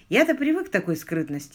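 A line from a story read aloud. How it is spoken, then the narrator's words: Calm. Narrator (Russian): спокойно сказал Бен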